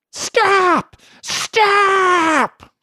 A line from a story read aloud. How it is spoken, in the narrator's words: she still shrieked after him